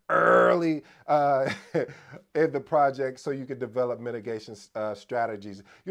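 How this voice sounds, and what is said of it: Imitates another person's voice. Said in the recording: “in my DMX voice”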